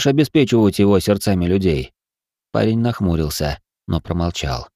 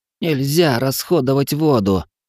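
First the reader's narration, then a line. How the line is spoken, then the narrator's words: Hoarse wheezing. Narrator (Russian): прохрипел он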